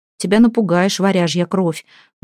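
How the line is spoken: Grumble. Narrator (Russian): буркнул Малкиня

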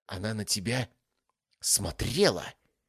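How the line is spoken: Hissing. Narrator (Russian): прошипела девушка

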